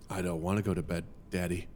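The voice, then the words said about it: Dry, menacing childlike voice impression. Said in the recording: “I can do a pretty good impression of this ... very dry, like 30-something-year-old delivery ... Very menacing.”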